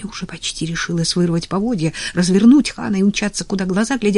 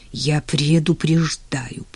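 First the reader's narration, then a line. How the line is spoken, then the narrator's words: Hiss. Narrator (Russian): прошипел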